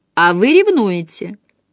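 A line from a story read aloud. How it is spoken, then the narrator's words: Calm reply. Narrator (Russian): спокойно отозвалась Джейн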